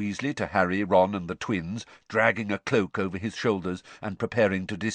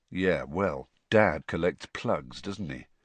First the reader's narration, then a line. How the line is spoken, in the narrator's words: said Fred, quietly